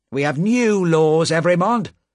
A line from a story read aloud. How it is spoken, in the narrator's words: said the official sharply